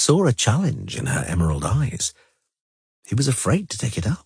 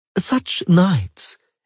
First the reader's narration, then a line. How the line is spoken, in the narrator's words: exclaimed Fringilla